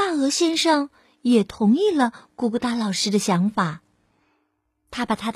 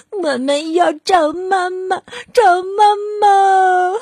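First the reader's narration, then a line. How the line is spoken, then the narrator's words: Whimpering, crying. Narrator (Chinese): 小老鼠兄弟们哭哭咧咧的说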